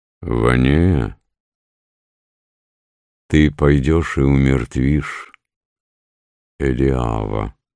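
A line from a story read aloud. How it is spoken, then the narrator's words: Calm. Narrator (Russian): сказал спокойно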